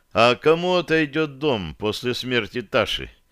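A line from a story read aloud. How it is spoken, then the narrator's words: Tired inquiry. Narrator (Russian): поинтересовался я, устало потирая лоб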